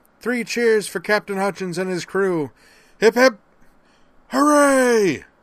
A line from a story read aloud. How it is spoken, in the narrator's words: one of the SimSups, the one who had played the Kobayashi Maru's captain, cried